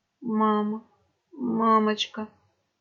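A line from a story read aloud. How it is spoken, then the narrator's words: Weak dying whisper. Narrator (Russian): шептал он чернеющими губами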